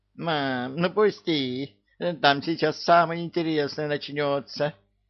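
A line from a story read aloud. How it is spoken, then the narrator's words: Squeaking young squirrels. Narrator (Russian): пищали бельчата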